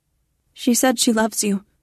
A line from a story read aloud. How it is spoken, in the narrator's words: I blurt out